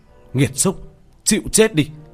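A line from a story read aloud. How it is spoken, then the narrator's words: Loud shout. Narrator (Vietnamese): Tiểu Thất hét lớn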